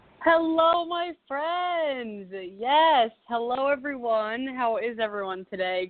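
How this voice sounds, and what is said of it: Excited, energetic voice. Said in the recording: “I am so, so jazzed, as you could probably hear in my voice”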